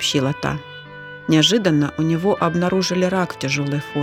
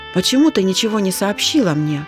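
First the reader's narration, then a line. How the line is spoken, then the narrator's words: Anxious question. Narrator (Russian): взволнованно спросила Зина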